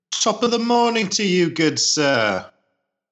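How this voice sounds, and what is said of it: Bad put-on British-sounding accent. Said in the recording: “Well, that was horrible. ... What kind of accent was that? Are you British? ... Was that French?”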